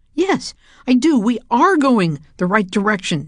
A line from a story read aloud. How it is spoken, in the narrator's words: James shouted